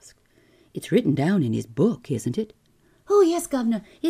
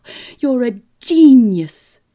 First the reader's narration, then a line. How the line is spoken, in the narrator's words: I cried